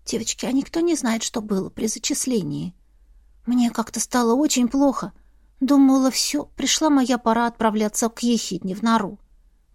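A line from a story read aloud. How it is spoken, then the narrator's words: Whisper. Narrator (Russian): прошептала Эрма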